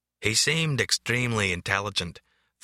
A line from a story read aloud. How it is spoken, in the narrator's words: Franz states in an exotic brogue that sounds like a blend of Scottish, Pennsylvania Dutch, and Carolina drawl